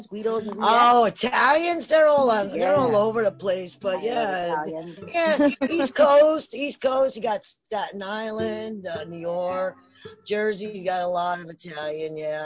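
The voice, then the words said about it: New Jersey accent. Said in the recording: “Jersey, so, I like your guys' accent... Jersey. Yeah, in Jersey”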